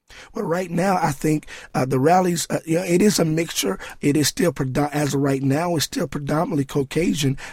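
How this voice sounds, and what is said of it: Hoarse voice. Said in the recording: “my voice is hoarse right now”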